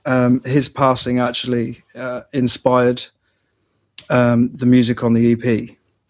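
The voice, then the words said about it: Choked-up, emotional voice. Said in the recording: “I'm sorry, I'm getting choked up there.”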